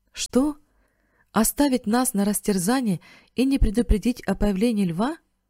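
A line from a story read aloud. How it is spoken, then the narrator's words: Exclaiming. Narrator (Russian): воскликнул Бен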